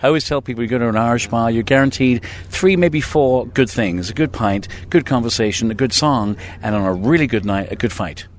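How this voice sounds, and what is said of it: English accent. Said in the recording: “Don't be fooled by the English accent”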